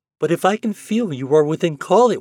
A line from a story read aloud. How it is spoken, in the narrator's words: she went on eagerly